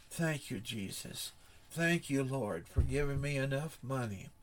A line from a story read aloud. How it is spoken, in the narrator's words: He softly said